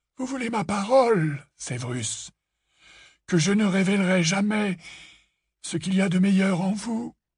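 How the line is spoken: Sighing. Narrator (French): soupira Dumbledore

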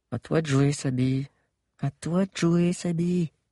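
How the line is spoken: Silent prayer-like murmur. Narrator (French): Sans desserrer ses lèvres, elle murmura, comme une prière muette

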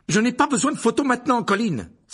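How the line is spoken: Forceful exclamation. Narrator (French): s'écria-t-il avec force

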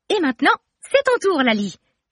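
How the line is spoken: Exclaiming. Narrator (French): s'exclame Romy

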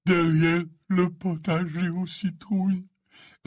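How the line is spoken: Voice choked with sobs. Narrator (French): répondit Hagrid, la voix étouffée par les sanglots

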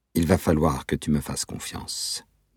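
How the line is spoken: Plain. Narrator (French): dit-il

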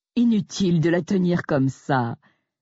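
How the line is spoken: Sneered. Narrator (French): a ricané Jack

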